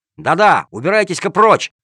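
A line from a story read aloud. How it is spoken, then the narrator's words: Boy, angry shout. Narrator (Russian): сердито прикрикнул мальчишка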